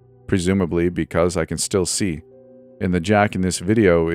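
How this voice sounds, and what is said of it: Usual voice. Nothing is said of it.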